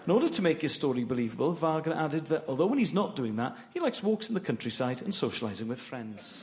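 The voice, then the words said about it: Regional accent. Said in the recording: “his beautiful regional accent”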